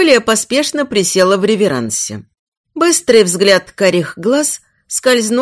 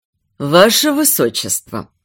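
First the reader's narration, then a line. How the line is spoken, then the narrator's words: Sweet purring. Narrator (Russian): промурлыкал он сладким голосом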